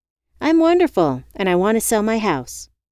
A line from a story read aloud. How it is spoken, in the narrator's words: I blurted